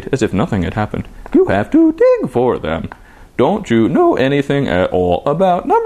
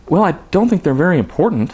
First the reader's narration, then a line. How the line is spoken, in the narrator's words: snapped Milo, too embarrassed to admit the truth